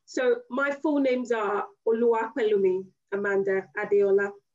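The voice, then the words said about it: Nigerian accent. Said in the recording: “I'm going to do it with the Nigerian accent.”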